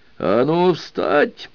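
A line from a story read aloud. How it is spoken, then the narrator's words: Barking command. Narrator (Russian): рявкнул капитан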